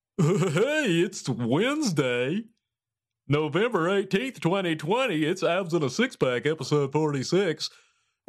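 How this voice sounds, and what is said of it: Deep announcer-style radio voice. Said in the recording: “Radio voice.”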